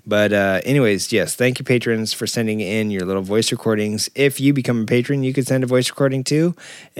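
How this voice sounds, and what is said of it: Vocal fry, strained low-energy voice. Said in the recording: “if you can't tell by the vocal fry and the diminishing excitement in my voice, it's getting hard for me to talk. I think I really cooked.”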